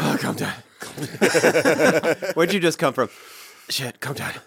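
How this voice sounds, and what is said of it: Breathless, panting delivery. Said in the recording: “you got to say it like you're out of breath.”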